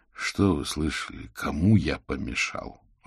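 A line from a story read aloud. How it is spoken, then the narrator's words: Sighing. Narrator (Russian): вздохнул Аверин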